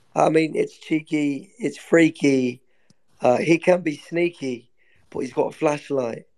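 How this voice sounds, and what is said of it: Put-on British-Australian blended accent. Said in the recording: “You sound like an Australian. ... You like blend the two. You're doing like a Britain Australian.”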